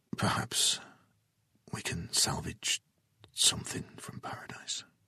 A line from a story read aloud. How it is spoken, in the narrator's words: Jason whispered